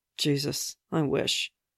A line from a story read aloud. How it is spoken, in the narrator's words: Barnes muttered